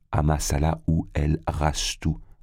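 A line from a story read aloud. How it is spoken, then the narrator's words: Plain. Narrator (French): répondit-il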